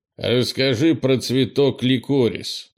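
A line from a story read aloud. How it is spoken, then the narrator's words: Gloomy request. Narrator (Russian): мрачно попросил Крис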